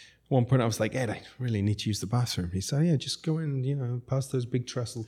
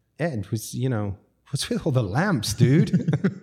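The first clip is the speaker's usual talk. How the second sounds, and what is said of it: Put-on American accent. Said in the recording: “My best American accent.”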